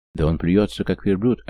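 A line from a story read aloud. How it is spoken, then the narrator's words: Plain. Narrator (Russian): ответил ему Раух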